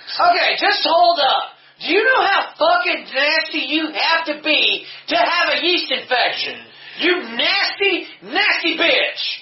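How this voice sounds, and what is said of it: Shouting. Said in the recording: “I'm sorry for shouting.”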